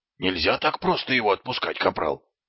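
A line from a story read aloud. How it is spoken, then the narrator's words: Hiss. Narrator (Russian): прошипел Колон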